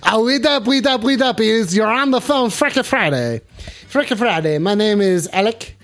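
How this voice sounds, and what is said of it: Put-on French accent. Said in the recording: “I gotta be saying this in a French accent”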